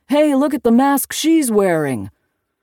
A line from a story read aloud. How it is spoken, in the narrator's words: some smart aleck called out from the crowd, shouting